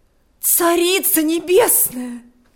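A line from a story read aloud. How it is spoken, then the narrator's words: Exclamation. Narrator (Russian): воскликнула она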